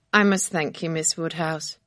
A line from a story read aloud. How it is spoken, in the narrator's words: the young man said quietly